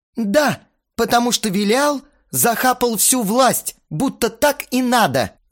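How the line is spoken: Yelling. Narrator (Russian): заорал Астарот

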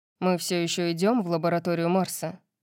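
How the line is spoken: Heavy grumble. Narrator (Russian): проворчал с тяжелой гримасой

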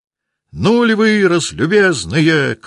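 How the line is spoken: Shouted. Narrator (Russian): крикнул Николай

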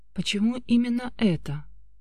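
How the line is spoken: Quiet question. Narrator (Russian): спросила тихо

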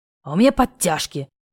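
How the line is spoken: Hoarse wheeze. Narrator (Russian): хрипит Вадим

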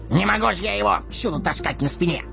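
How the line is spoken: Snapped. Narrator (Russian): огрызнулся Дори

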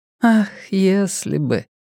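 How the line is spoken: Sighing. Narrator (Russian): вздохнула Вера

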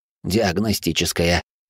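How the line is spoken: Mechanical mutter. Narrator (Russian): механически пробормотал лекарь

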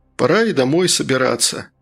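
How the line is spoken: Sighing. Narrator (Russian): Матье вздохнул

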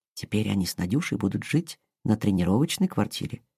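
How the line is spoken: Plain. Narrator (Russian): сказала Инга

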